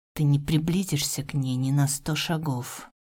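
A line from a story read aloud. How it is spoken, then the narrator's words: Growled. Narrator (Russian): выдал с рычанием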